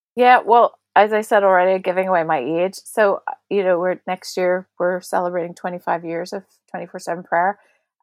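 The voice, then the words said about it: Northern Irish accent. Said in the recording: “how strongly I said prayer there in a very Northern Irish accent ... Never apologise for your Northern Irish accent.”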